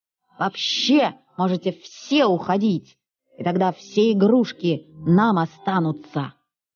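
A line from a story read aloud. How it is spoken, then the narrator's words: Small child shouting. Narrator (Russian): я, сидя на маминых руках, закричал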